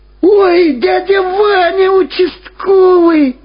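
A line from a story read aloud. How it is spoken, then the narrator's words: Joyful shout. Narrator (Russian): радостно закричал Владик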